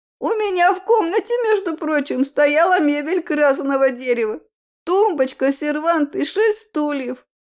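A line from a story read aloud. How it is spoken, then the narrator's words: Interrupting shout, woman. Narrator (Russian): закричала она, не дав мне договорить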